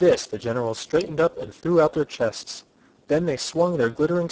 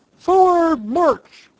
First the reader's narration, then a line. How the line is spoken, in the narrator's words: the captain screamed to the private